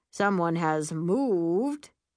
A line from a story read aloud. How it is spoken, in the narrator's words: I groan